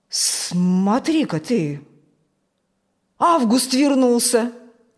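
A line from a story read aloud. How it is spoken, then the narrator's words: Surprised exclamation. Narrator (Russian): удивленно воскликнул Фокт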